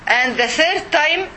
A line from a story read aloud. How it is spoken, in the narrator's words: the man yelled and shouted to Abu Bakr as-Siddiq